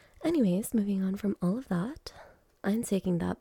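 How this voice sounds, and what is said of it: Usual voice. Nothing is said of it.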